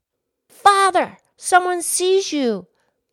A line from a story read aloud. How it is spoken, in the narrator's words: the child cried again